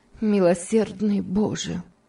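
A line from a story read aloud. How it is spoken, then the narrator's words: Exclaiming with heavy sigh. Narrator (Russian): тяжело вздохнув, воскликнула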